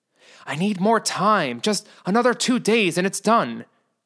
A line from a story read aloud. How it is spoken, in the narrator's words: Sam pleaded into the phone